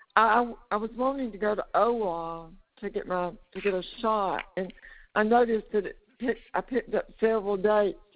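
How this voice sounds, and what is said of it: Hoarse, weak voice. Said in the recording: “my voice is kind of gone this morning”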